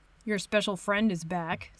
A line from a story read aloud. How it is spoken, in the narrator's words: Steve mutters